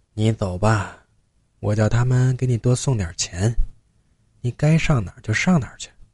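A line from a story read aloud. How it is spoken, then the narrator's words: Soft voice. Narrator (Chinese): 吴奶轻声说着话，她说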